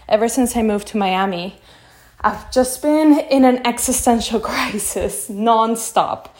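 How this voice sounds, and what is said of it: Out of breath, breathless speech. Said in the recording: “out of breath”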